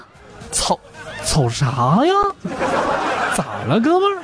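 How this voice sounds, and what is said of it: Put-on Northeastern Chinese accent. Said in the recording (Chinese): “东北大碴子味儿给带跑了。...一个东北人能够把这个把一个南方人的口音带跑偏需要多长时间啊？答案是一句话”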